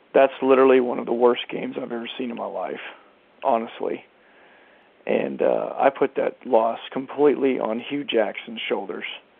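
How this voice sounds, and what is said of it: Hoarse, partly lost voice. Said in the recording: “lost my voice a little bit from yelling at the goddamn TV”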